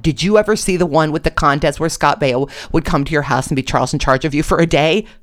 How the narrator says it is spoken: I shouted

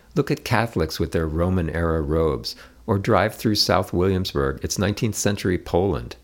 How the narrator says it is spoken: Joey couldn't help smiling, but replied

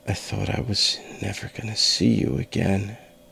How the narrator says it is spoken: I whispered

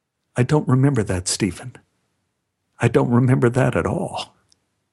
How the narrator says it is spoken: would say quietly

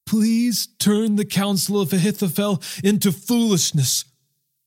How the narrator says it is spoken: David pleaded

